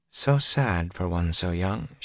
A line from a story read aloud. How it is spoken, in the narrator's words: she said softly